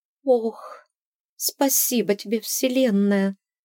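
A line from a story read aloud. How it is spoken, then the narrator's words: Trembling mumble. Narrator (Russian): дрожащим голосом пробормотала она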